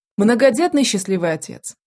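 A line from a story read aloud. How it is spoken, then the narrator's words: Snorting. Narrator (Russian): хмыкнул Адар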